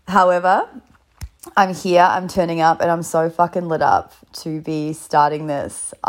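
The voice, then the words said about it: Sick, nearly lost voice. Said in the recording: “I'm in bed sick right now, having coughed all night, and I'm on the verge of losing my voice”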